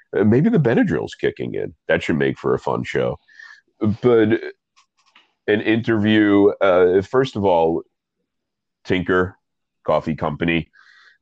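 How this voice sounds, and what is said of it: Stuffy, congested voice. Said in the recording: “I sound stuffy. ... I am incredibly stuffy”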